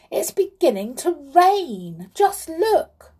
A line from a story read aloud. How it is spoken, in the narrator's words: cried the clown suddenly